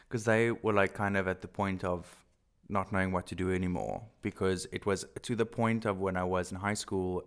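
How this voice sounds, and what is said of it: Afrikaans-accented English. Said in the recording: “I'm so Afrikaans. I'm going to be so horrified when I listen to this and hear my accent.”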